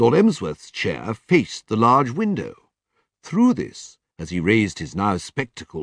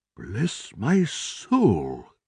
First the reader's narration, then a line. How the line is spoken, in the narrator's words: murmured